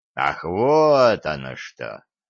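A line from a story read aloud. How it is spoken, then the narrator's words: Drawn out. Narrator (Russian): протянул Альварец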